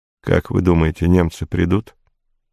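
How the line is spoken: Confidential whisper in ear. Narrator (Russian): Капитан броненосца наклонился к моему уху и прошептал конфиденциально

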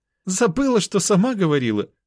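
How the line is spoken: Laughing. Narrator (Russian): рассмеялась Оксана

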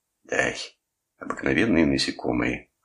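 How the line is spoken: Dismissive snort. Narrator (Russian): хмыкнул Кресс

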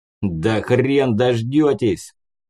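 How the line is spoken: Unseen speaker barking. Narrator (Russian): рявкнул невидимый собеседник

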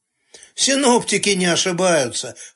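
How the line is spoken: Chuckled. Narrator (Russian): хохотнул Саша Турченко

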